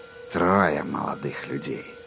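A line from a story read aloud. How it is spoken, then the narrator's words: Purring voice. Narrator (Russian): промурлыкал он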